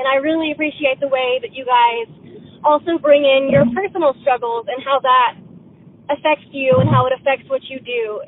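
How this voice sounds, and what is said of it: Nervous, very fast speech. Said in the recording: “I'm really nervous, and that's why I'm talking so fast.”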